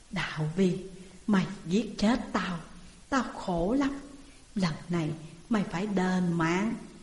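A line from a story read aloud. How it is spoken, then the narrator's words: Soft voice near ear. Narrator (Vietnamese): một tiếng nói khe khẽ ở bên tai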